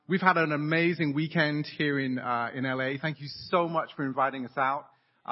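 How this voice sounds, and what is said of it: English accent. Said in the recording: “you can hear my English accent”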